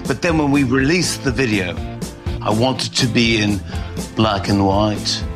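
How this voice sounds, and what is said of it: Accent like a Beatles member. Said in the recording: “I'm not sure about the accent. ... it sounded like someone from the Beatles, maybe.”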